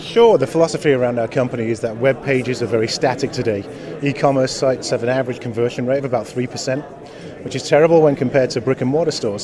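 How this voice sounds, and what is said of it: English Manchester accent. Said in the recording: “originally from Manchester, England ... I didn't think that was a Texas accent”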